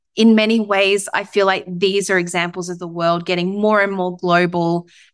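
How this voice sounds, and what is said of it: Australian accent. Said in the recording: “there's not a lot of Australian accents around in Texas ... an Aussie accent about ... wait, do you have an accent?”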